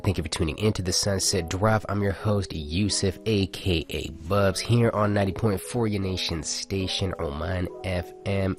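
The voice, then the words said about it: Raspy voice. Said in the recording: “Excuse my raspy voice today. I'm not as hydrated as I normally should be”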